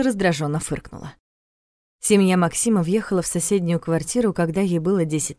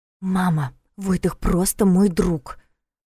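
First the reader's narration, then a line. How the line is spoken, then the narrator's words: Indignant whisper. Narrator (Russian): возмущенно прошептала Саша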